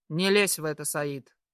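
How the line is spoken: Sharp rebuke. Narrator (Russian): Резко одергивает Исаев

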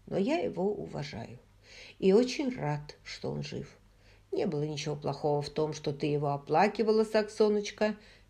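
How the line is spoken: Soft, gentle. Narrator (Russian): мягко произнес

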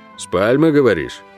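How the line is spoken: Barking shout. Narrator (Russian): рявкнул

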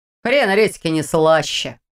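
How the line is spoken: Grumbling. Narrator (Russian): проворчал Ваня

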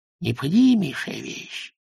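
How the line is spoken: Hiss. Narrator (Russian): прошипел он

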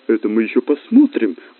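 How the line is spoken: Exclamation. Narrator (Russian): воскликнула Раиса Зиновьевна

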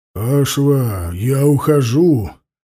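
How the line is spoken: Growled. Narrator (Russian): зарычал Ауранг

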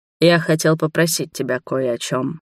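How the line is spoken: Tired. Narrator (Russian): сказал он устало

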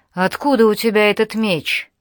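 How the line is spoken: Sharp question. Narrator (Russian): она резко спросила

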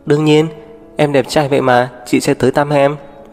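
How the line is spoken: Smiling. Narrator (Vietnamese): Tố Diệp mỉm cười

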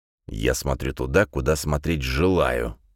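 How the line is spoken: Through gritted teeth, furious. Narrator (Russian): процедил Паркер сквозь зубы, пока внутри у него закипала волна бешенства

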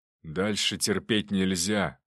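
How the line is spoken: Deep bass, father. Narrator (Russian): пробасил отец

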